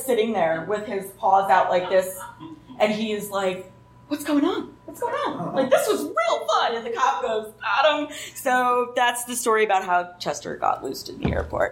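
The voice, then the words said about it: New Jersey accent. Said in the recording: “I really like the Jersey accent. Thank you for bringing a little East Coast color to this.”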